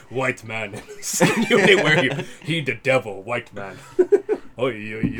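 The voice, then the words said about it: Imitates another person's voice. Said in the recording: “that your impersonation of Doug? ... It's pretty spot. ... Okay, it's pretty good.”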